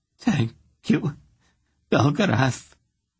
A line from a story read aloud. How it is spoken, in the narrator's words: she said in a faltering voice